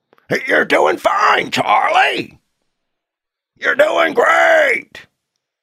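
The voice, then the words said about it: Imitates another person's voice. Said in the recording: “I'm going to impersonate the guy.”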